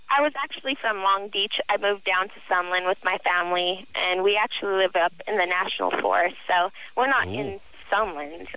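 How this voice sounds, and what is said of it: High-pitched little girl voice. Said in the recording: “You have the little girl voice ... I've always had this little girl voice.”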